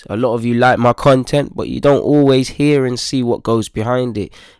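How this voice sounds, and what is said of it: Slightly ill, under-the-weather voice. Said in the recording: “As you can potentially hear from my voice, I'm kind of coming down under the weather a bit.”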